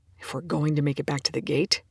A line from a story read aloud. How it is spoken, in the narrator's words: Young says grimly